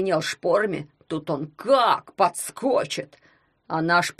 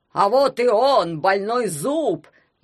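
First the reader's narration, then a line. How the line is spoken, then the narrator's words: Shouted. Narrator (Russian): я крикнул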